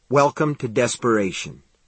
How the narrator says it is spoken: he said, speaking solemnly through his grin

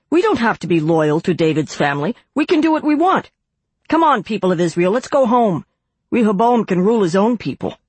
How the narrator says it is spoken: When the people realized that Rehoboam would not listen to them, they shouted

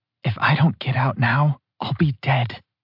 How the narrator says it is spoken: she whispered, the edge of desperation attached to every word

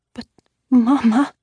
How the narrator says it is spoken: I said uneasily

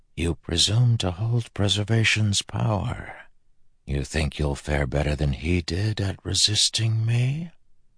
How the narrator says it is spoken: he whispered to Elinoi in her own language

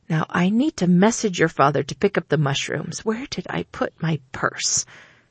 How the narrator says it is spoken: mumbled to herself

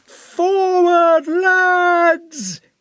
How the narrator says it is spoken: he shouted in a voice piercing as a child's

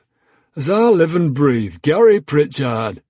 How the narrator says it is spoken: a voice called out

